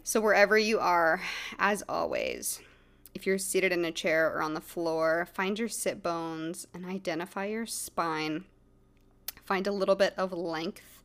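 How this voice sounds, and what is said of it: Slightly off, sore-throated voice. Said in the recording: “my throat really hurts today. My voice is a little off.”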